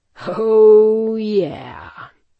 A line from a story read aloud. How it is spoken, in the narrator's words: he purred